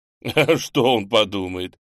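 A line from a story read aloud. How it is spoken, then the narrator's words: Amazed chuckle. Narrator (Russian): хохотнул Немченко, пораженный наглостью девицы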